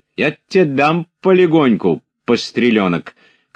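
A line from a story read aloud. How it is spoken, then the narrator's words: Shouting. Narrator (Russian): крикнула Мавра Кузьминишна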